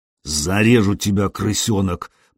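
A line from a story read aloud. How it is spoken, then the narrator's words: Hissing threat. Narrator (Russian): прошипел волосатый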